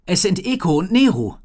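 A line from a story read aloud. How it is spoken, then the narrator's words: Calling out. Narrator (German): rief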